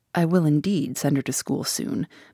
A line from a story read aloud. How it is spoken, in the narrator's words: murmured Mrs